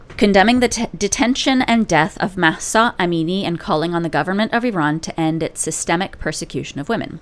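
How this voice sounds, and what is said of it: Motherly reading-aloud voice. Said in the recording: “in my best mom reading voice”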